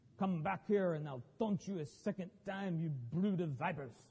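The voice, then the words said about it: Exaggerated French accent. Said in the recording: “With my obnoxious French accent.”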